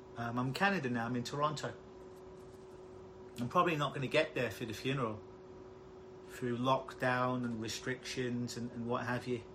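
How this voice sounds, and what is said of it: London English accent. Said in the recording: “if you haven't told by my accent, I'm originally from London, England”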